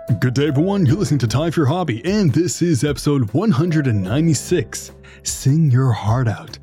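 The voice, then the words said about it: Movie trailer announcer voice. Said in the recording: “You got that whole movie going voice there ... that movie trailer voice”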